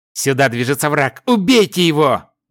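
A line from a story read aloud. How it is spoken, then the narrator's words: Young man's vicious shout. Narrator (Russian): злобно выкрикнул парень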